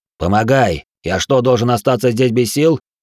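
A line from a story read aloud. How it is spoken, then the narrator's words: Angry. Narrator (Russian): зло сказал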